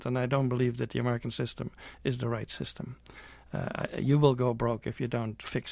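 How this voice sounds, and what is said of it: European accent. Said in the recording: “I'm European, as you can hear from my accent”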